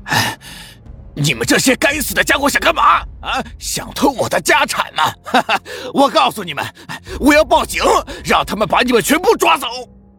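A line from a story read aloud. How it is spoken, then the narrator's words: Furious roaring. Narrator (Chinese): 脸色涨得通红，暴跳如雷的大声吼叫着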